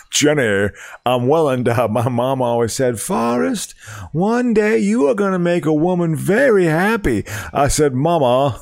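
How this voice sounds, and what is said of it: Forrest Gump character impression. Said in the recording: “Forrest Gump is a good one ... good about that impression”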